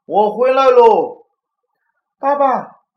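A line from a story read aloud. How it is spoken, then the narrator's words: Shouting. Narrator (Chinese): 熊爸爸……站在家门口大喊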